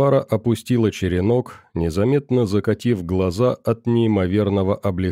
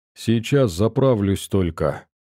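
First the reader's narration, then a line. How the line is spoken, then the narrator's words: Tired reply. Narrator (Russian): устало ответила она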